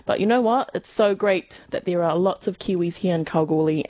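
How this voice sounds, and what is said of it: Thick New Zealand accent. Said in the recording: “my New Zealand accent ... my thick New Zealand accent”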